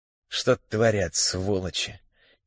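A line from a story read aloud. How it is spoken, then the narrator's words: Quiet muttering. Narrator (Russian): тихо пробормотал Смирнов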